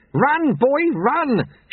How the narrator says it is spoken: shouted Lutze

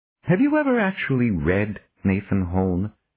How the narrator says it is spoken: He asked, his voice amiable once again

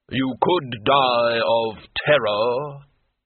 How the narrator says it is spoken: the hood intoned

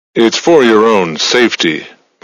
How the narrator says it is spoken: Moranti said

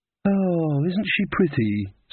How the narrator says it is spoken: sighed Magrat, the generous-hearted

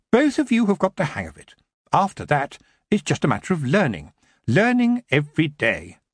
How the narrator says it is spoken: she said sternly

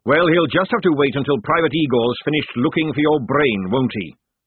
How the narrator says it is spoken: snapped the sergeant

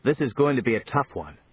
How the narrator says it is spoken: said Johnny

